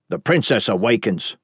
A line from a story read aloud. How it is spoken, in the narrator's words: Boren snapped